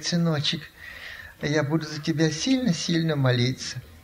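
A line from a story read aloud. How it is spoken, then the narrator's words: Sighing speech. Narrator (Russian): Она вздохнула, говорит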